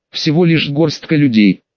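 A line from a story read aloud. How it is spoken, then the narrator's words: Angry hiss. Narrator (Russian): прошипел со злостью Марк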